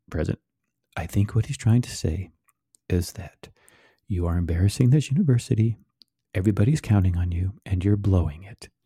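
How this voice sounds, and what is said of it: Gentle, soft-spoken voice. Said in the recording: “I'm saying it in my gentle HR voice.”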